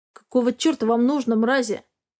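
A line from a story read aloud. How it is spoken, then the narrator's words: Growled. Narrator (Russian): прорычал Дерек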